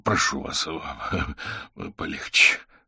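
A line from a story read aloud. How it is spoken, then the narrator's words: Strained breathless. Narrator (Russian): сдавленно выдохнул Аверин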